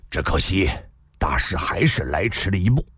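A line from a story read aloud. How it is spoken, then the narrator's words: Sighing. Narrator (Chinese): 赵正义叹了口气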